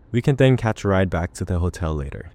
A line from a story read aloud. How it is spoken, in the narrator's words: David says